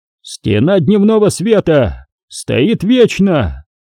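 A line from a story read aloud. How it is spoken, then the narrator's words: Roaring over comms. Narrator (Russian): проревел вокс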